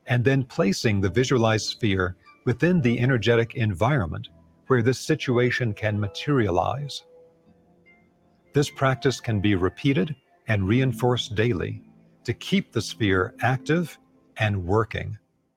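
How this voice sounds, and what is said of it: Scary, trance-inducing voice. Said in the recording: “He's got a very scary voice. ... he'll put you in a trance.”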